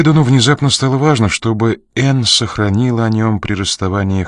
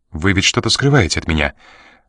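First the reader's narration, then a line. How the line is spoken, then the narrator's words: Sharp question. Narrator (Russian): резко спросила девушка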